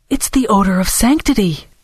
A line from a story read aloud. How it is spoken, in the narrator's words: Dora exclaimed, pretending to have only just noticed it herself